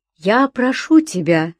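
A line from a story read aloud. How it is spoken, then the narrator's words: Calm. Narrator (Russian): спокойно начал Решетников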